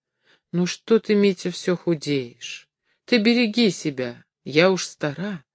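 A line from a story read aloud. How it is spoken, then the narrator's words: Quiet. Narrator (Russian): тихо прибавила она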